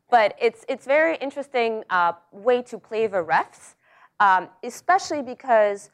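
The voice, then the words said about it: Russian accent. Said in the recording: “that's my accent. Which, by the way, comes because I was born and I grew up in Russia”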